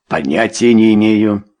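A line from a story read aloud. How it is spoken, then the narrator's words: Cold. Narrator (Russian): холодно произнес лорд Меридан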